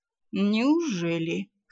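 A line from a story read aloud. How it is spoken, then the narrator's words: Skeptical snort. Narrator (Russian): хмыкнул Ролар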